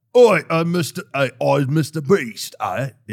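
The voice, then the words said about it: Put-on Cockney London accent. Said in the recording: “he's like kind of Cockney ... he has a London accent ... That's what it sounds like.”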